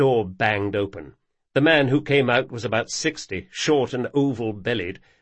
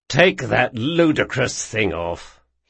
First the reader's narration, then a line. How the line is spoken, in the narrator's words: he growled